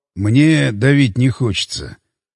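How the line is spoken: Sigh. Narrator (Russian): вздохнул Кузьминок

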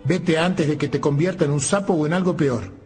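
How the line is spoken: Witch shouting. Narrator (Spanish): la bruja le gritó

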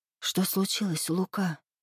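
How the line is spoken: Whisper. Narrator (Russian): прошептала Муза

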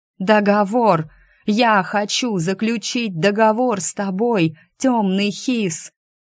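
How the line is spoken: Straining scream. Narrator (Russian): Срывая связки, закричал Стриж

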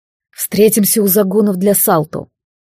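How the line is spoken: Grumbled. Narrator (Russian): буркнул он Эргиану

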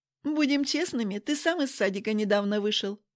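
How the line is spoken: Laughing. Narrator (Russian): засмеялась я

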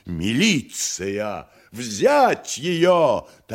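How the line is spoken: Terrifying shout. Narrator (Russian): таким страшным голосом прокричала супруга Симплиярова

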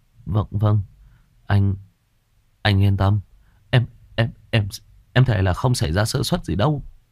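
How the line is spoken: Stammering. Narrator (Vietnamese): Một thằng lắp bắp

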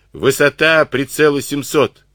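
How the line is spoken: Shouted command. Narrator (Russian): крикнул он канонирам

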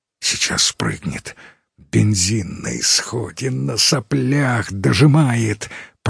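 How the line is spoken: Whisper. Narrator (Russian): прошептал Юра

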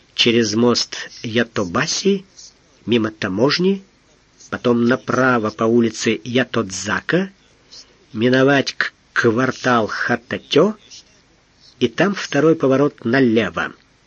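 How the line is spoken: Memorizing whisper. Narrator (Russian): Эраст Петрович прошептал, запоминая

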